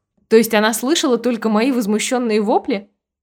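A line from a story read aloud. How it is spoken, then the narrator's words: Muffled snort behind fan. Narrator (Russian): Прикрывшись вынутым из сумочки веером, хмыкнула я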